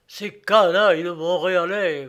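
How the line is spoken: Grumbling. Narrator (French): grogne-t-il

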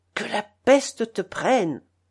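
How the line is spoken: Frenzied hiss. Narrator (French): Avec frénésie, elle siffle

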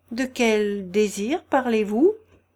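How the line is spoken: Plain. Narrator (French): demanda-t-il

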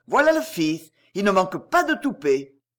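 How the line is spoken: Man's exclamation. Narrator (French): s'écria un homme

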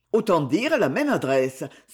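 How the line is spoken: Exclaiming coachman. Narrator (French): s'exclama le cocher

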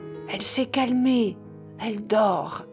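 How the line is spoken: Low, hopeful reply. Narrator (French): répondit à voix basse la Nanon, dont le visage resplendissait d'espérance

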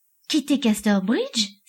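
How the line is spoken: Exclaiming. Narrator (French): s'écria-t-elle

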